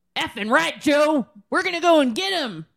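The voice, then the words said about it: Joking put-on Southern accent. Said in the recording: “sorry for the Southern, like, joking accent”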